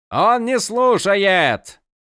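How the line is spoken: Panicked shout. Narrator (Russian): Закричал друид, и в голосе его сквозила паника

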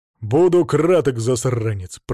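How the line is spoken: Deep bass voice. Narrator (Russian): пробасил Сварг

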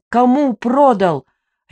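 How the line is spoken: Barking right into ear. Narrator (Russian): рявкнула я ей прямо в ухо

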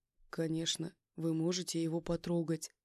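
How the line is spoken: Soft voice. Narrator (Russian): мягко сказал он

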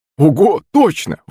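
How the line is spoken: Young man's exclamation. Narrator (Russian): воскликнул парень

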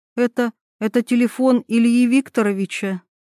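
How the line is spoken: Uncertain question. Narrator (Russian): спросила она неуверенно

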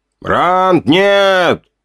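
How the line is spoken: Shout from ahead. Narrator (Russian): крикнул Сови впереди, наверное, услышав потасовку

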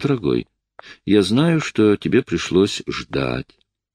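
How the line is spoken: Tender speech. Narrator (Russian): ласково произнесла

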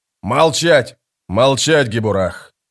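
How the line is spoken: Barked sergeant. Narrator (Russian): рявкнул сержант

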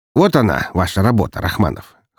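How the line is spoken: Snorting, wry. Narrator (Russian): хмыкнул Игнатов

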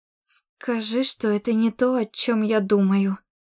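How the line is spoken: Trembling voice. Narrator (Russian): произнесла дрожащим голосом

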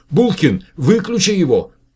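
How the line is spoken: Shout. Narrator (Russian): крикнула Светлана Николаевна

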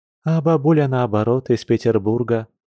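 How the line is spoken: Sudden, soft chuckle. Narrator (Russian): вдруг произнесла Маша, мягко хмыкнув

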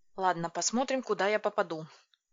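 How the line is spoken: Muttered. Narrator (Russian): пробормотала я

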